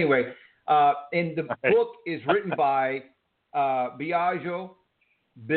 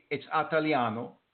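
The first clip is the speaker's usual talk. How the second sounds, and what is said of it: Imitated Italian accent. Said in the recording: “That's my best imitation of an Italian accent.”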